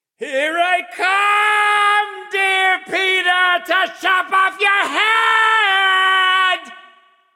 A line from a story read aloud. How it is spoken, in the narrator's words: Flag screamed